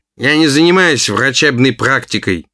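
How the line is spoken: Grumbling. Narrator (Russian): проворчал

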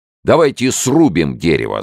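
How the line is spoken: Shouting. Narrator (Russian): закричал Рафаэль

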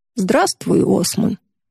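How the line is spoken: Hoarse, exhausted voice. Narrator (Russian): говорит Юдора хриплым от усталости голосом

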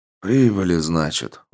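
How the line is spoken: Sighed. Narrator (Russian): вздохнул Кайда

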